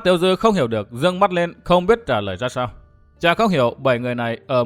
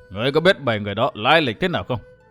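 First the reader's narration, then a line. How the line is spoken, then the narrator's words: Worried sighing old woman. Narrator (Vietnamese): Mụ già thở dài sườn sượt, dường như đầy vẻ ưu tư, chỉ hỏi lại một câu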